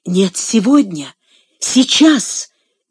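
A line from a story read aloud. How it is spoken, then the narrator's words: Forceful exclamation. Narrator (Russian): силой воскликнула она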